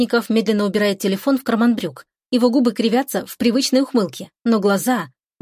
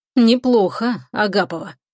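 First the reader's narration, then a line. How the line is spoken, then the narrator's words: Hoarse. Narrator (Russian): хрипловато произносит он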